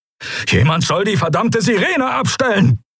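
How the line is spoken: Barking. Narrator (German): bellte Telios

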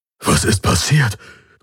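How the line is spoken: Panting. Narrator (German): keuchte er

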